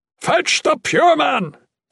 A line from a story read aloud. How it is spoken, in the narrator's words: Bernard bellowed